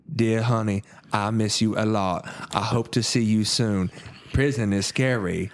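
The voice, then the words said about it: Imitated film character's Southern accent. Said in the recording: “the accent that Nick Cage uses in this film ... That accent is still being researched by, like, you know, scholars. ... Alabama? ... when he's reading the voiceovers”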